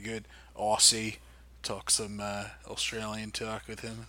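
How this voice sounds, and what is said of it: Poor fake Australian accent. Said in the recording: “That's my shitty Australian accent.”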